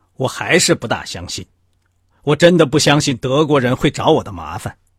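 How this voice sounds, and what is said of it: Cold, detached voice. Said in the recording (Chinese): “用一种冷淡的声音说”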